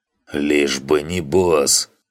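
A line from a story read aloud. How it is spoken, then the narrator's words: Hoarse wheeze. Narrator (Russian): прохрипел танг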